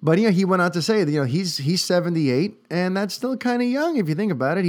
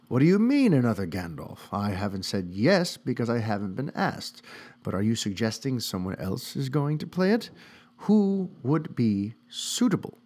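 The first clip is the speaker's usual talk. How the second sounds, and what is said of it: Put-on British accent. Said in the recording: “I don't know why I'm even attempting to do a British accent. It just kind of happened.”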